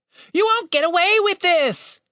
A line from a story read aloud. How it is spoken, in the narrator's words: Tim shouted